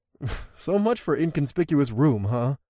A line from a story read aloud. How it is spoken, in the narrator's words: I chuckled